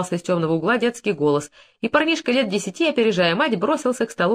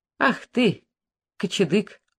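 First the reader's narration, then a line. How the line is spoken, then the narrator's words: Affectionate scolding father. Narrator (Russian): ласково обругал отец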